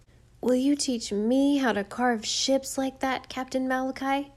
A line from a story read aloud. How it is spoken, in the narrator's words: pleaded Jim